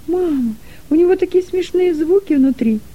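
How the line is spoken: Joyful squeal. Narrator (Russian): радостно завизжал Дилека

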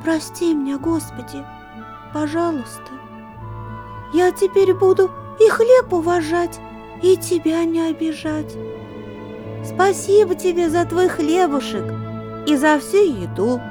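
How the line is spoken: Quiet whisper. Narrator (Russian): тихо шепнула

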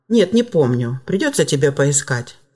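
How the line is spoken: Calm. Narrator (Russian): спокойно ответил отец

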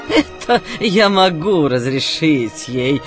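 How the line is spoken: Laughing exclamation. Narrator (Russian): воскликнул Калиф, смеясь

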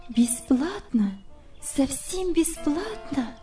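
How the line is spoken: Confused mumble. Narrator (Russian): пробормотала она, совсем сбитая с толку

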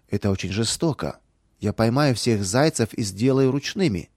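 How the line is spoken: Plain. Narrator (Russian): сказала Наташа

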